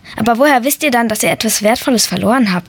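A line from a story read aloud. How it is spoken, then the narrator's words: Plain. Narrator (German): fragte ich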